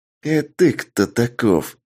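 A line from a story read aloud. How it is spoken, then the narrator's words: Menacing hiss, young man. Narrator (Russian): грозно прошипел парень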